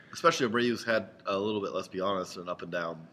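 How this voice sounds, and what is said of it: Congested voice from a cold. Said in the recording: “As you can tell, I have a cold and I'm trying to fight through it.”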